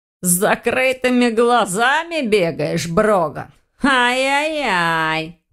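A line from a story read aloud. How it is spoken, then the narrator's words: Hoarse drawl. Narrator (Russian): Протянул хрипло волк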